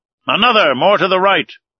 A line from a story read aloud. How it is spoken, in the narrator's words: cried the commander